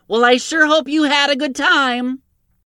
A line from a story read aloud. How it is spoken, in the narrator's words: She leaned out and yelled as he hopped toward the woods